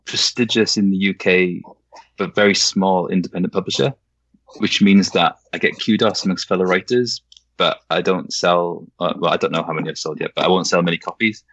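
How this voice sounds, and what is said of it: Welsh accent. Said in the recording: “So my my accent is ... Welsh ... I thought it was Scottish. It's Welsh”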